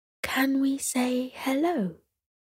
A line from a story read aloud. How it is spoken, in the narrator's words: Sierra whispered back to her mother